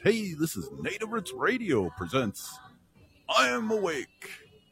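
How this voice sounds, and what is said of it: Radio DJ announcer voice. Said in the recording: “in my DJ voice.”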